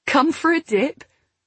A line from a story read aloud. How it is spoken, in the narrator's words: Chloe asked with a laugh